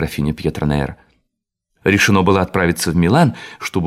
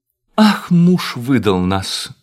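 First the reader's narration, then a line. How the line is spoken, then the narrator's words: Exclaimed. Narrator (Russian): воскликнула маркиза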